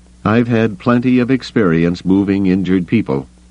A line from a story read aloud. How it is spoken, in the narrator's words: Bell Iblis said grimly